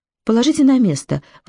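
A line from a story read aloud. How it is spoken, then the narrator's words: Agitated voice. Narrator (Russian): взволнованно произнесла Анна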